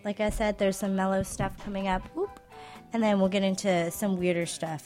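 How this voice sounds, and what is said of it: Sick-sounding voice. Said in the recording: “pardon my voice, I'm a little sick today”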